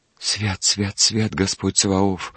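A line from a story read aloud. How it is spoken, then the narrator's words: Whisper. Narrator (Russian): прошептал Егорушка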